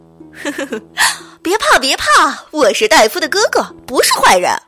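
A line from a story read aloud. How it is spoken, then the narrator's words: Laughing reassurance. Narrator (Chinese): 邪恶大夫 继续笑着说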